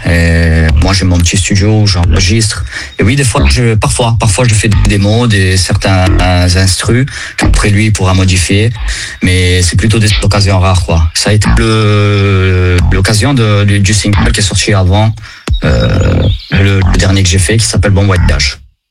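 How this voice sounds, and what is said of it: Slight Italian accent. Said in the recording (French): “ton petit accent italien”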